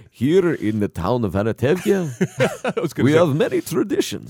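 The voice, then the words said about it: Tevye impression, Yiddish accent. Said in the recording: “Not going to do a lot of Yiddish. ... You just sound like Count Chocula then.”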